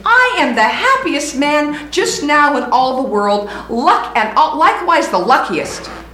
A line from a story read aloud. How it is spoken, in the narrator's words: he exclaimed